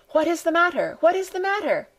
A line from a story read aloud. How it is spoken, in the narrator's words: cried the frightened old woman